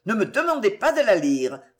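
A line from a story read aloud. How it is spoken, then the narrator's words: Furious outburst. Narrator (French): s'écria-t-il dans un véritable accès de fureur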